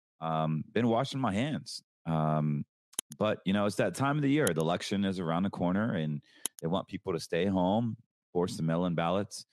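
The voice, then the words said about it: Raspy, low-energy sick voice. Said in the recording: “I think I'm getting the election flu. I'm not feeling well. I have like very, very low energy... my voice is still raspy.”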